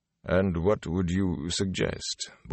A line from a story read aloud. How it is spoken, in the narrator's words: Bornhold asked calmly